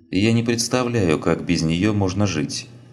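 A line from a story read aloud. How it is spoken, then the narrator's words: Calm answer. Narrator (Russian): спокойно ответила Лина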